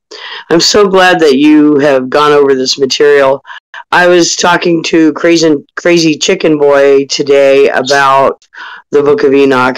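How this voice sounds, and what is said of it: Croaky, froggy voice. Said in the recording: “my voice is very froggy tonight”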